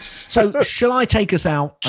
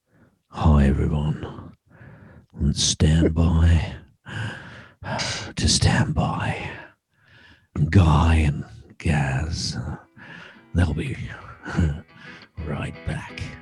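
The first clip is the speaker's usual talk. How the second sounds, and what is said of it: Put-on sexy, creepy voice. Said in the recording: “do the sexy voice ... is that sexy voice or pervert voice? ... Pervert.”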